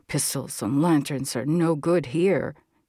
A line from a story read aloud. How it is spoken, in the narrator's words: grumbled